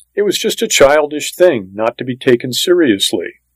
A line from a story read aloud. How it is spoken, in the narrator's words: June Ellen's mother said quickly